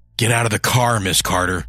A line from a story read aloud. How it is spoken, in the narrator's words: her dad snarled